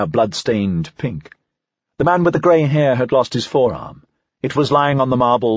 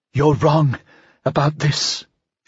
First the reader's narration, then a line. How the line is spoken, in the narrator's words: she breathed